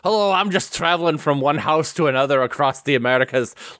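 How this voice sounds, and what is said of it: Put-on Scottish accent. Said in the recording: “He wants us to know he has a Scottish accent to show us.”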